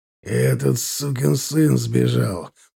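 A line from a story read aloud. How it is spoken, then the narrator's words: Angry. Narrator (Russian): проговорил он злобно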